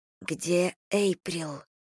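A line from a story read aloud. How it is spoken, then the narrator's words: Quiet question. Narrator (Russian): тихо спросила я Меган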